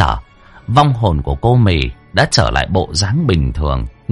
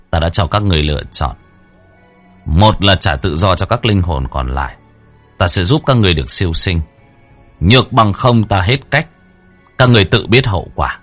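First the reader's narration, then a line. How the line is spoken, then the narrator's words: Cold. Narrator (Vietnamese): Đen lạnh lùng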